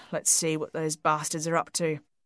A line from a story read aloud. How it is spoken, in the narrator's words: murmured